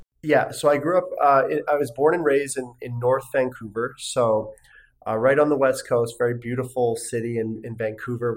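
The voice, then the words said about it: Canadian English accent. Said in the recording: “I grew up in Canada, as we talked before about my accent”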